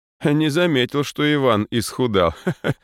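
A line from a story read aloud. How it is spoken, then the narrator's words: Chuckling father. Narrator (Russian): хохотнул отец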